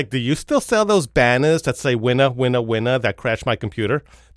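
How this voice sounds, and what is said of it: Jewish Long Island mother accent. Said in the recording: “very Jewish mom from Boca Raton, right, from Long Island originally. I feel her accent coming out of me. I'm going to channel her”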